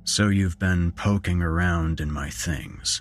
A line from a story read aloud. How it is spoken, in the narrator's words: he said icily